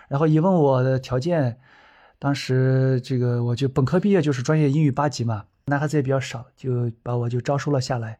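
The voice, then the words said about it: Heavy regional accent in Mandarin. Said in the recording (Chinese): “其实我普通话特别差 ... 口音太重了 ... 口音太重呀”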